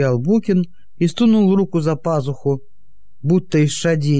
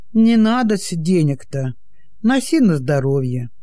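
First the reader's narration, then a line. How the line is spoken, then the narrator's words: Sad. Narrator (Russian): грустно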